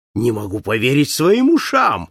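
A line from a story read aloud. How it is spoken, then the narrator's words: Exclaiming, bursting into loud laughter. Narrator (Russian): воскликнул Пасспарту, раздражаясь громким хохотом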